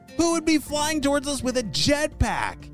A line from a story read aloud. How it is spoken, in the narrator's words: shouted George